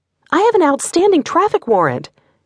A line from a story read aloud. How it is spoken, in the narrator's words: Brittany screamed again